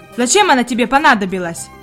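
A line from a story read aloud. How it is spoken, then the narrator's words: Rude interrogation. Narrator (Russian): грубо продолжал допрос слуга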